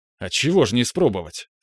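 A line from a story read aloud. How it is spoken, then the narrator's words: Good-natured snort. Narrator (Russian): хмыкнул я, благодушествуя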